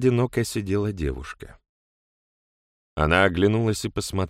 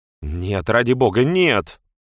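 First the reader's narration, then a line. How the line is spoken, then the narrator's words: Exclaimed. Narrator (Russian): воскликнула Бренда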